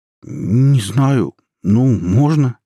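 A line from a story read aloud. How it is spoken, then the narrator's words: Uncertain reply. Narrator (Russian): неуверенно ответил Май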